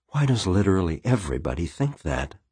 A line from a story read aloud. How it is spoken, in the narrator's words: Plum muttered